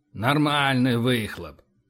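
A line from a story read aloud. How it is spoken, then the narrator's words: Grumbling. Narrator (Russian): проворчал Боровский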